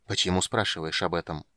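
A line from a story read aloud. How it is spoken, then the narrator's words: Quiet speech. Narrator (Russian): тихо сказал Рейслин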